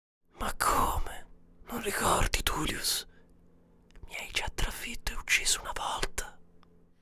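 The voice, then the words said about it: Whispered line. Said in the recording (Italian): “sussurrò”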